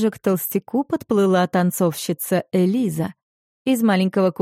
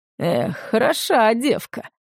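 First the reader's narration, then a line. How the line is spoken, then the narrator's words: Gentleman's smirking grunt. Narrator (Russian): хмыкнул господин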